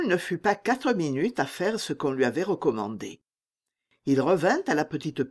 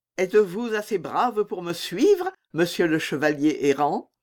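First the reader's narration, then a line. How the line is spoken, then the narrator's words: Young woman asking, laughing. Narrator (French): demanda la jeune fille en riant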